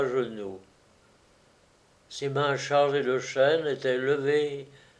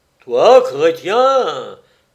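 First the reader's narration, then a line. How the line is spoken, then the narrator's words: Exclaimed in tremendous voice. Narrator (French): s'écria Comor d'une voix formidable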